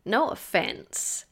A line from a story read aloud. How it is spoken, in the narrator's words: he said, his voice croaky from a day of miming his intentions rather than speaking